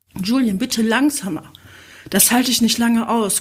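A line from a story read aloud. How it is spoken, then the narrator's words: Panting. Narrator (German): keuchte sie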